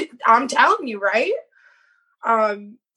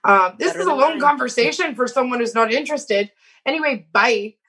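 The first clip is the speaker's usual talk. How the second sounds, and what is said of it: Terrible put-on Scottish accent. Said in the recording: “It's a terrible Scottish accent, by the way.”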